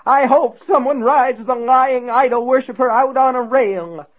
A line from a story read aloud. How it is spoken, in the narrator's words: William Rose cried